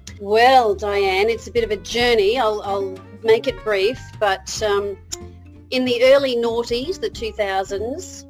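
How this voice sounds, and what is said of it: Australian accent. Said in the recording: “you are in Australia with this accent”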